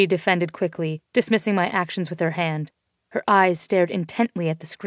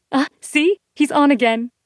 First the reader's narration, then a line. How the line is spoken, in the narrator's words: Marie squealed with excitement